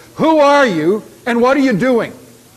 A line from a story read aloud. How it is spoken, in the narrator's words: a huge guard in front of him demanding in a loud voice